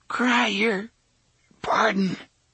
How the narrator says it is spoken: the man with the frizzy red hair gasped

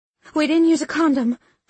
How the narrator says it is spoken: I cried

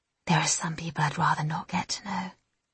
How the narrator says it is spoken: Jessica whispers

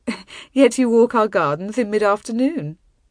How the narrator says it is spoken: Brisson chuckled

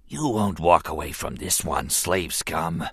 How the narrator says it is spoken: he wheezed softly, grinning

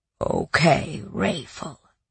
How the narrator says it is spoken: Khan muttered

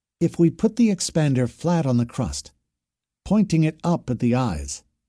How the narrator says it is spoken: she said

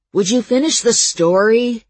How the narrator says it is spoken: Calvin asked a little plaintively

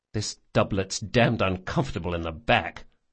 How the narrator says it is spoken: Locke muttered

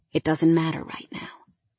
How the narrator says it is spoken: he whispered

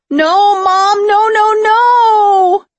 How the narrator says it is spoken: I had never heard them simultaneously scream and beg so loudly

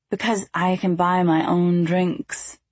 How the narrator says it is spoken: I said, albeit a bit slurred

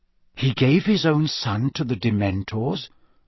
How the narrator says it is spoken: asked Harry quietly

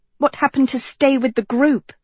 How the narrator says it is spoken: Sophie snapped

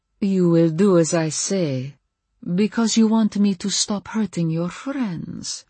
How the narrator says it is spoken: she purred

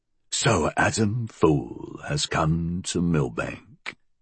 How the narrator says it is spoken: Reckitt said, his voice creaking

